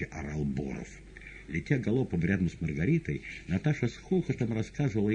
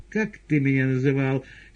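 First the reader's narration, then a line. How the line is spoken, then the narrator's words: Shouting. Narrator (Russian): кричала она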